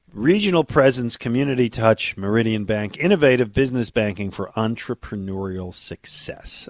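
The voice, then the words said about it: Husky, fading voice. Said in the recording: “I'm losing my voice ... It just sounds like I'm partnering with Kathleen Turner now ... I got a cold”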